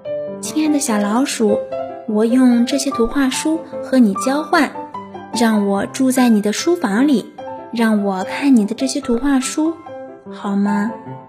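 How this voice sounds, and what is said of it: Very gentle, tender voice. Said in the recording (Chinese): “小巫婆用最温柔的声音说”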